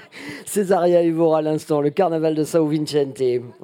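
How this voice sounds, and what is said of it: Terrible put-on Portuguese accent. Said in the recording (French): “J'ai un accent portugais épouvantable”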